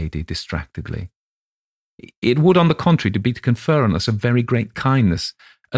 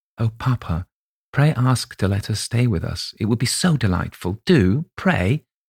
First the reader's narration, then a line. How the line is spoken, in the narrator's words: whispered earnestly in his ear